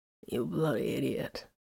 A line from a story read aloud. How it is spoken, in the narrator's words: Vox rasped accurately